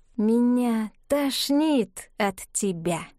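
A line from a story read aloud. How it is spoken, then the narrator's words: Slow, deliberate. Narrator (Russian): медленно, с расстановкой сказала бывшая Лара Заяц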